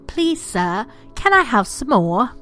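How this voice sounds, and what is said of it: Put-on accent. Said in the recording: “I know, you love the accent, right? I'm trying.”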